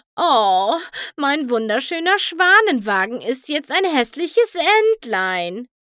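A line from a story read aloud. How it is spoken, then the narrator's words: Moaning lament. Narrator (German): stöhnte Rarity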